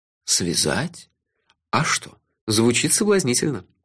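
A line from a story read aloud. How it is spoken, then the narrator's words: Languid purr. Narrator (Russian): томно промурлыкал я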